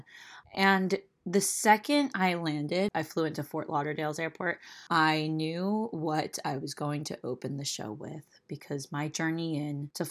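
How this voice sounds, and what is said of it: Slightly raspy voice. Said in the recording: “my voice is back ... It's pretty much back, a little raspy, but not bad”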